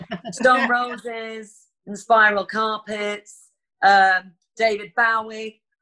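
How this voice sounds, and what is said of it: Poor imitation of Lancashire accent. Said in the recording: “That's not a very good Lancashire accent.”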